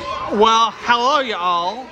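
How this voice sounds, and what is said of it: Poor put-on American accent. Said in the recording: “That's a terrible American accent.”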